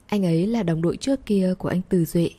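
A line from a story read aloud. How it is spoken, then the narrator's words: Gentle, smiling woman. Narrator (Vietnamese): Cô cong khóe miệng, ... nhẹ nhàng nói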